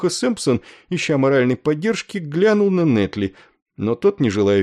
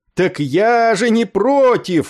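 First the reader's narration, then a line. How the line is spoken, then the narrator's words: Joyful yell. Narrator (Russian): радостно заорал он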